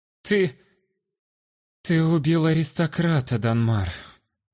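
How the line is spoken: Strained breathless woman. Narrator (Russian): С трудом выдохнула женщина

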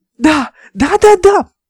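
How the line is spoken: Shouting excitedly. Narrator (Russian): прыгала и кричала Ольга

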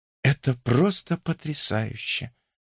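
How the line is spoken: Whisper. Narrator (Russian): прошептала она

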